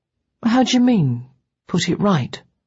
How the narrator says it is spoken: His voice was gentle, full of childlike curiosity

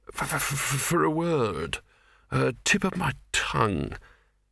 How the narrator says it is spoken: it said in a dreamy, stunned voice

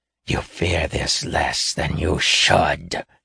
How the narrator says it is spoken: snarled, restrained anger in his voice evident

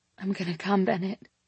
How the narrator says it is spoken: whispering

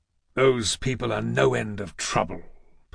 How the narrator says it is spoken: Poseidon muttered

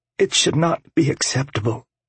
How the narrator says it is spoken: she said tightly

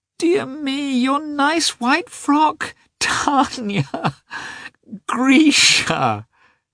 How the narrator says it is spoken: cried their mother, smiling a blissful, rapturous smile

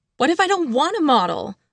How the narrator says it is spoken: I screamed

